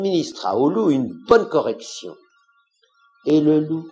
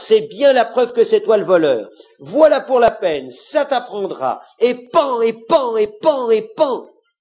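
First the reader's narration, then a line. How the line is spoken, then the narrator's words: Fox exclaiming. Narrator (French): s'écria le renard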